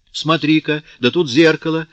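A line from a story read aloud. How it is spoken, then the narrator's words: Sudden exclamation. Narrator (Russian): вдруг воскликнула она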